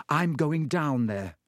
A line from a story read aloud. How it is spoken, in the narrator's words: he said